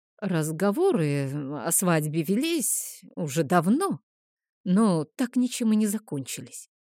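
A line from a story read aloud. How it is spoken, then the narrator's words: Mumbled. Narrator (Russian): промямлил Хель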